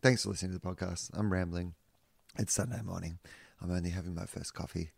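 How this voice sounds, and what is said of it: Whispering. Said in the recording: “I'm whispering because uh, I'm trying not to wake the neighbors up.”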